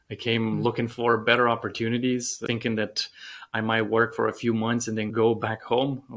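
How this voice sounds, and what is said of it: Romanian-accented English. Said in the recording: “You have an accent that tells me that you are not a born and bred American guy ... the accent is not a Southern accent. I actually came from Romania”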